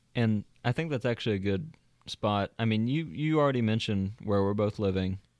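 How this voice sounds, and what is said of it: Southern American accent. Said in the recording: “I never think of myself as having a Southern accent, but ... we both definitely do.”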